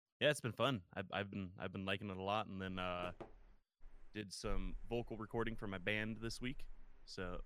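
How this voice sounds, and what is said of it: Hoarse, rough voice. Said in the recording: “my voice is a little shredded”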